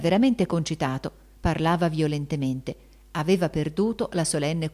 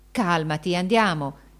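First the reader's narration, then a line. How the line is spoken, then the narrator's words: Exclaimed. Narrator (Italian): esclamò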